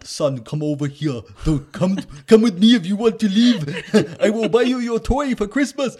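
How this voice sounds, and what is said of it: Imitates another person's voice, poor Austrian accent. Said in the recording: “What accent is that? ... That's not German. ... he's Austrian ... Either one, it's neither of those.”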